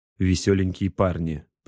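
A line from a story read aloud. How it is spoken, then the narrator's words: Grumbled. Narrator (Russian): проворчал Бол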